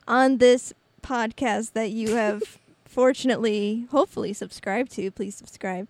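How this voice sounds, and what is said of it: Robotic-sounding voice. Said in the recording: “You sounded like a robot there for a second.”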